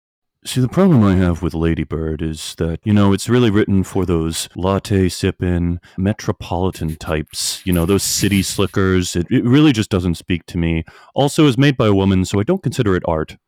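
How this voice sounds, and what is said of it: Impression of a co-host. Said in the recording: “my impression of you ... That was good. That's nail on the head.”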